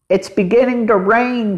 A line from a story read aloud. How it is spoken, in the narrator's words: cried Henry